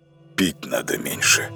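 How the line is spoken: Breathed out. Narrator (Russian): выдохнул он

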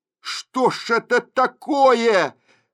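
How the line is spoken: Sharp ringing shout. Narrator (Russian): чей-то голос выкрикнул звонко и резко

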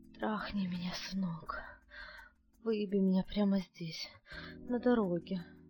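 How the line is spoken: Hoarse, aroused voice. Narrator (Russian): хриплым от возбуждения голосом произнесла

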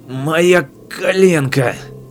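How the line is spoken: Groaning. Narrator (Russian): Леон застонал

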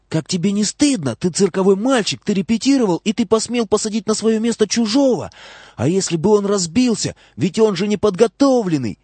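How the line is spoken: Shouted whisper. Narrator (Russian): закричала шепотом

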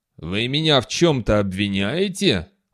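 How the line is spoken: Threatening voice. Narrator (Russian): угрожающим голосом произнес полковник

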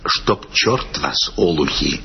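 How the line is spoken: Whispered. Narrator (Russian): сказал нам шепотом

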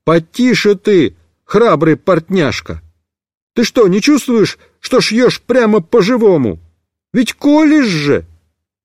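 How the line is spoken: Shouted. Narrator (Russian): Я закричал

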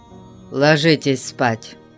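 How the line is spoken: Grumbling. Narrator (Russian): проворчал

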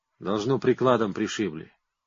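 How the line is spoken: Quiet. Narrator (Russian): тихо говорит стрелок

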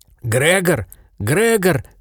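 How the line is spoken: Shouting. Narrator (Russian): кричал

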